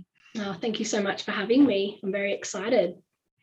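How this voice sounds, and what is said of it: Croaky voice from a cold. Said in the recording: “I've got a cold at the moment, so sorry if my voice is a little bit croaky.”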